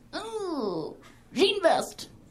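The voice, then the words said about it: Made-up voice for a dog. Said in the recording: “If I did a voice for my dog”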